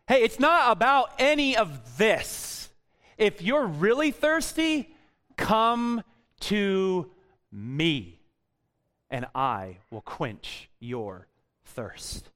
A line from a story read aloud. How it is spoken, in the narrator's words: Jesus essentially shouting